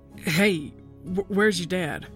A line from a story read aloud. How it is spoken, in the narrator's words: Uncle Mick seemed to sputter